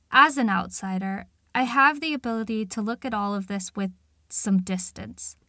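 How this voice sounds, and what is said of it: Non-Northern English accent. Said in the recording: “my accent immediately gives away that I am not Northern”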